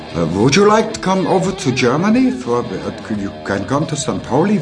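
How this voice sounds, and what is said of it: Put-on German accent in English. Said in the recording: “This accent.”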